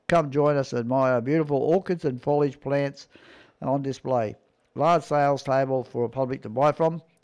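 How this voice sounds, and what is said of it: Strained, failing voice. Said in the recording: “my voice is going again”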